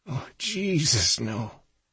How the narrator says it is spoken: Kate moaned softly

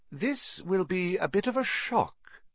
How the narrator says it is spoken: said Professor McGonagall in a surprisingly gentle voice

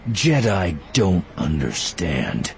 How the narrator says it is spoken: Voss said, his voice dripping contempt

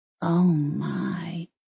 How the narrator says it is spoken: Molly whispered

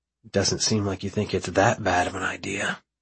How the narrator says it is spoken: I murmur

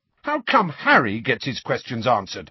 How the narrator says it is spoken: said Fred angrily

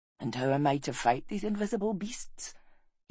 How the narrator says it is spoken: He asked softly

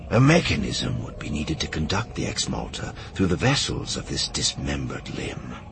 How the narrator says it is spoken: Fison whispered

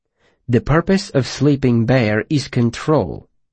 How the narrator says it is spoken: Vachette said calmly

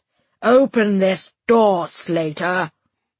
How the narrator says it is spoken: growled, slurring from drink

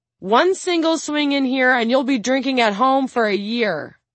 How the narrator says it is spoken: yells

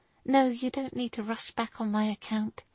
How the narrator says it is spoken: she muttered

